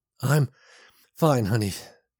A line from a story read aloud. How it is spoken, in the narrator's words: he said, gasping